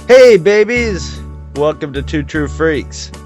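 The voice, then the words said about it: Silly exaggerated voice. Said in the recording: “Why am I talking like an idiot?”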